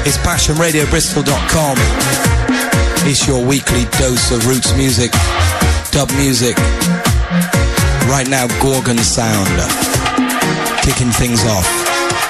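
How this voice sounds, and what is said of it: Croaky, deeper than usual voice. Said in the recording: “kind of croaky, ... a little deeper than usual. ... My voice does seem to be going.”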